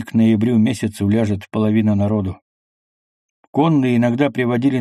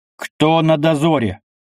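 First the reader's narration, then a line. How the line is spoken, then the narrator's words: Loud barked shout. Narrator (Russian): гаркнул Алексей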